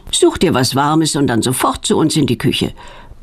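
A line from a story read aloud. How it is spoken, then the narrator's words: Stern motherly command. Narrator (German): befiehlt Petronellas Mutter streng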